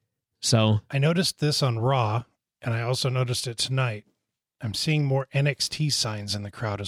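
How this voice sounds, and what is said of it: Usual voice. Nothing is said of it.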